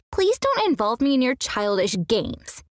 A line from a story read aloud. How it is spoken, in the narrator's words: she snapped back